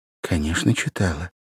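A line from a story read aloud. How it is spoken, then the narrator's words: Quiet embarrassed young woman. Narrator (Russian): произнесла девушка тихим, смущенным голосом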